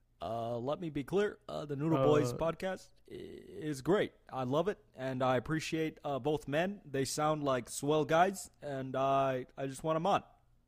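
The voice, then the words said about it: Obama impression. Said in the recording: “It would be extremely funny if like one of the listeners was like Obama. ... That was my impression.”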